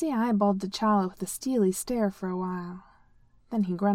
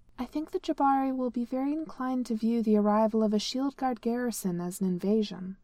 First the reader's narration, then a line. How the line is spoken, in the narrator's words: T'Challa said, keeping his tone mild